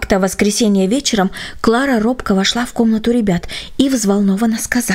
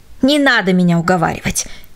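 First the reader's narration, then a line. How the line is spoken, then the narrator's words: Angry dismissal. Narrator (Russian): сердито отмахивался он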